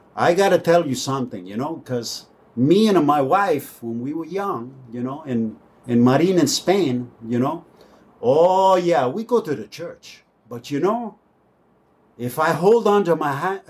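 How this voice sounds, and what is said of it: Put-on Spanish accent. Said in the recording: “with his Spanish ... accent, accent”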